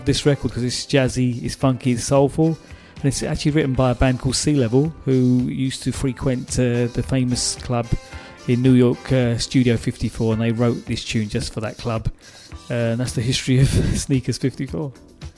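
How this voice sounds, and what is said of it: Cockney accent. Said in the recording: “the Cockney accent”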